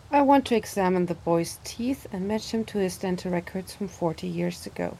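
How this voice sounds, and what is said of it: Very monotone, uninterested voice. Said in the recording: “is talking in a very monotone voice. Seems kind of uninterested in the whole agency around her.”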